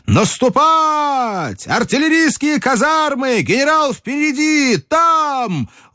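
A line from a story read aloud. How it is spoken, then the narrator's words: Shout. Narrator (Russian): он закричал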